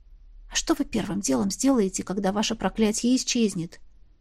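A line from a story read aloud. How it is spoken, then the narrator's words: Quiet address. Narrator (Russian): Обратилась я к нему тихо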